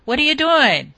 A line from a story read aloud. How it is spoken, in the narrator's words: shouted again